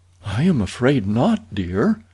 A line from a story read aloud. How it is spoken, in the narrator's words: answered Hazel sadly